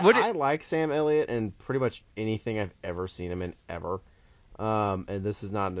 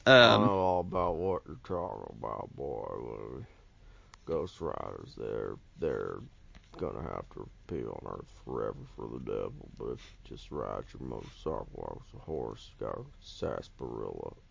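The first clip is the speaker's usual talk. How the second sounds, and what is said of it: Deep voice, Western accent. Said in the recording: “deep voice and Western accent”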